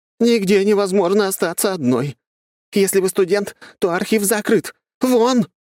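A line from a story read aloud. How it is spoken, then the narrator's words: Shouted. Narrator (Russian): Последняя незнакомка выкрикнула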